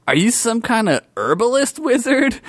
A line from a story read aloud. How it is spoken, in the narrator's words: Blurt asked innocently